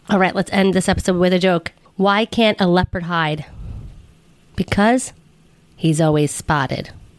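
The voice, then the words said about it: Hoarse, nearly lost voice. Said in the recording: “I don't know if you can tell from my voice. It's basically gone from talking for 3 days straight”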